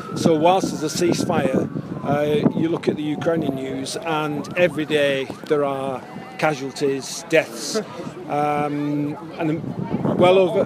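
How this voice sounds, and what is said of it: Northern English accent. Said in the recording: “you've got a northern English accent”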